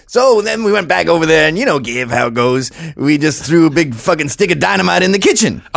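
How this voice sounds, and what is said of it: Imitates another person's voice. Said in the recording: “the impersonation is getting a little better... it sounds a little better”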